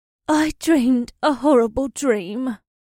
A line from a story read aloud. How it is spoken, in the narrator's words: she mumbled